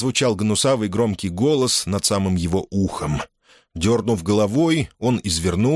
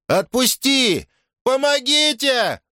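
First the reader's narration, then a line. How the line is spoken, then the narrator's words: Panicked screaming. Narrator (Russian): завопил он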